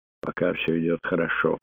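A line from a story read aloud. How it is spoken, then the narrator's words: Muttered. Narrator (Russian): пробормотала Сара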